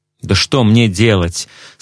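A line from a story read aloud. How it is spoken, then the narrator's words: Angry question. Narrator (Russian): спросил сердито МакДьюи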